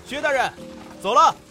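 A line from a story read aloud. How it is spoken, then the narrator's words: Loud reminder. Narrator (Chinese): 背后的江金大声提醒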